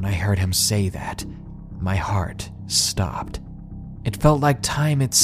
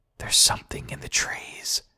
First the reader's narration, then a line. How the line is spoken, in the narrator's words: he whispered